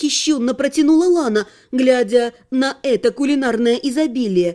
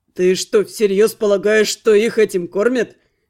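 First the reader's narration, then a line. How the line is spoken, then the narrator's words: Skeptical snort. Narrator (Russian): хмыкнул Адар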